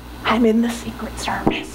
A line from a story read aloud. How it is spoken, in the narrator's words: The man leaned in and whispered